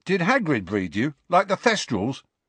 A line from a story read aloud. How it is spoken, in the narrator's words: asked Dean eagerly